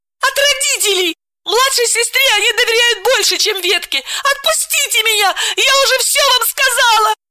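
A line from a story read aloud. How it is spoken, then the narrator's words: Pleading again. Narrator (Russian): Снова взмолилась Миронова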